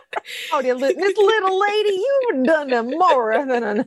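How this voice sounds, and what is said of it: Thick exaggerated Southern American accent. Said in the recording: “suddenly ... has a fucking thick as molasses southern accent... It is like aggressively foghorn leghorn”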